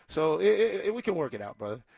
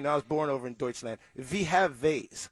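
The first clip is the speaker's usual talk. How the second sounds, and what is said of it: Put-on German accent. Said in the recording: “in a German accent”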